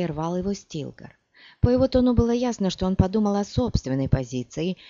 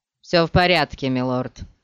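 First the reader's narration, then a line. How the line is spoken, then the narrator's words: Rather dry. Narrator (Russian): ответил Корба довольно сухо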